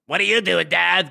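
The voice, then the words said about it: Imitates a young child's voice. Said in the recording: “Because she sounds like that... that's the proper impersonation.”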